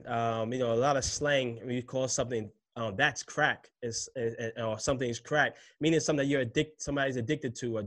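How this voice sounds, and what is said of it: New York City accent. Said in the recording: “If you can't tell, I'm from New York City by my accent.”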